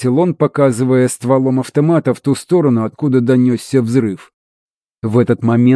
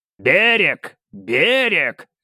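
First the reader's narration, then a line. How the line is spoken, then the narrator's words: Barked. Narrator (Russian): рявкнул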